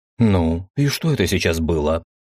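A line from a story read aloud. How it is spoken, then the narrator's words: Indignant declaration. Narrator (Russian): возмущенно заявил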